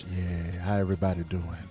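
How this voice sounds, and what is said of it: Soulful radio announcer voice. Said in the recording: “My radio voice is so awesome... It's a soulful sound.”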